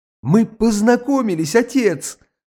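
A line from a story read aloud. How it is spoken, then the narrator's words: Tender triumphant exclamation. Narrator (Russian): воскликнул он с выражением какого-то ласкового и доброго торжества на лице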